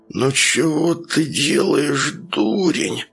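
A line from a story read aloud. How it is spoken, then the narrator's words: Lisping. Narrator (Russian): прошепелявил он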